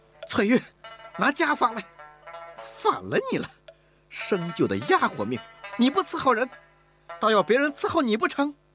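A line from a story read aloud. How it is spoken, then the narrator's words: Exasperated shout. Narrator (Chinese): 吴雅士忍无可忍地喊道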